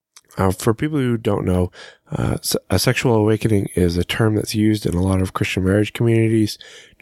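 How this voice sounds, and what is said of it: Scratchy voice. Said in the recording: “I'm trying to get over a cold, so please excuse my voice. It's a little scratchy, and I feel like I could lose it at any minute”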